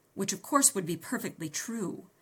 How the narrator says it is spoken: I snapped

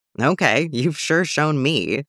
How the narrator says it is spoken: she chuckled, low and melodic

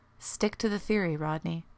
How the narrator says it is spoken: John said more gently

